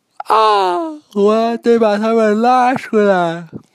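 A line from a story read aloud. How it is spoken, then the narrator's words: Quick urgent shout. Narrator (Chinese): 呱唧马上叫道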